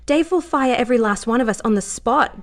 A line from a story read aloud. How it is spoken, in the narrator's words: Joe said, her voice rising now, frustrated at Lara's insistence on action